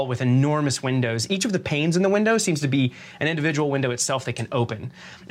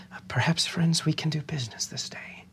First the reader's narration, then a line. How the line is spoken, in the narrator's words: very quietly to all of you